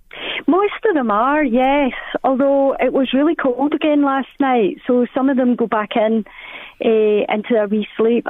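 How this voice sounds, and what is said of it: Scottish accent. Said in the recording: “lovely Scottish accent. Aww. It really is gorgeous ... yourself with the Scottish one”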